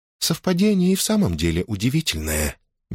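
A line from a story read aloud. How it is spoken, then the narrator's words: Honeyed sweet voice. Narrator (Russian): медоточивым голосом ответила Лианна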